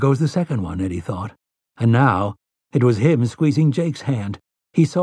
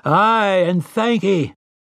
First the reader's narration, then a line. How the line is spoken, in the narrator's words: they had roared their answer